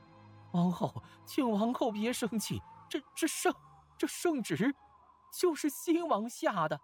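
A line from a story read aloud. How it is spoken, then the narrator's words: Trembling servant. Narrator (Chinese): 侍臣 颤声说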